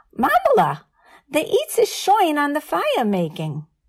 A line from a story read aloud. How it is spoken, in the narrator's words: she'd call my friend Esther in for dinner by screeching